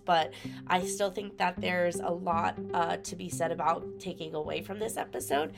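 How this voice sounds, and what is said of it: Congested, stuffy voice. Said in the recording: “I had a very bad sinus infection while we recorded this ... a little bit of congestion that you might hear in my voice”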